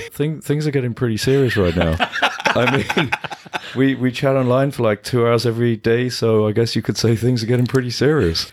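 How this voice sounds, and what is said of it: Impression of Kip from Napoleon Dynamite. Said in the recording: “try and do a Kip impression.”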